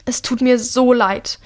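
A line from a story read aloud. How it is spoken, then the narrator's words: Shouting over thunder. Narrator (German): ruft er seinem Bruder über den Donner hinweg zu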